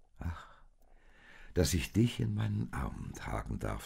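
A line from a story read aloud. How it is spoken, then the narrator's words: Said gently. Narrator (German): sagte der sanft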